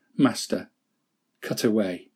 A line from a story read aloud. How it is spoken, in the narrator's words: Bamboo shivered in terrible expectancy, whispering low